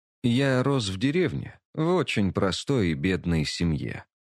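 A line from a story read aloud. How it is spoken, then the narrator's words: Quiet, man. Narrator (Russian): негромко сказал мужчина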